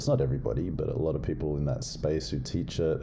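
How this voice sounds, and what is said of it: Noticeable non-local accent. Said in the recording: “I have a funny accent”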